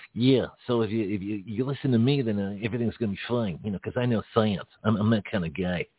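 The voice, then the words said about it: New York accent impression, some Boston. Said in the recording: “I got to work on my accent here. Too much Boston creeping into my New York accent ... It's actually sounding a little bit like him.”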